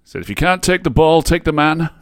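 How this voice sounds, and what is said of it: Put-on accent imitating another person. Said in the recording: “I love how you have to put on his accent.”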